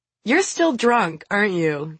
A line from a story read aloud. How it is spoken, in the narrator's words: Kira says, laughing